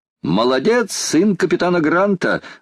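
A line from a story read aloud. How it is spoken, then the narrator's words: Exclaimed. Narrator (Russian): воскликнул Паганель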